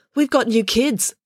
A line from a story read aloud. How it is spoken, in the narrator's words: the pigtail girl called out